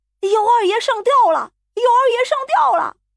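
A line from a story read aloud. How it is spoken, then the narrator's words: Alarmed shouting. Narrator (Chinese): 老厨子一声喊起，几乎是发现了什么怪物似的，大叫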